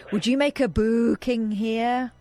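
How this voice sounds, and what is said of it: Put-on Scottish accent. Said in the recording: “Why are you doing a Scottish accent?”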